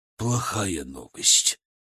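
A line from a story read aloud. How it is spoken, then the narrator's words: Disbelieving whisper. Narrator (Russian): прошептал он, все еще не веря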